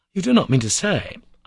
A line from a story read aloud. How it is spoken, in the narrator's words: cried